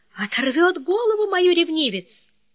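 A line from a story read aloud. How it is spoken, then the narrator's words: Sudden sigh. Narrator (Russian): вдруг Анна вздохнула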